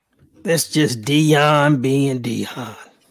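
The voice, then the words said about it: Imitates another person's voice. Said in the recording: “That's my impression.”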